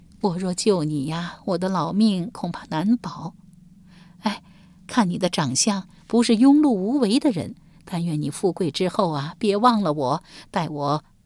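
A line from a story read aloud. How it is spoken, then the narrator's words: Old woman sighing. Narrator (Chinese): 老妪长叹一声道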